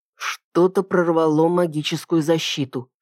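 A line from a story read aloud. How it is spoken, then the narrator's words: Whisper. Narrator (Russian): шепнул я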